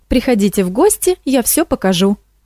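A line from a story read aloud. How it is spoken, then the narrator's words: Exclamation. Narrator (Russian): воскликнула Морошка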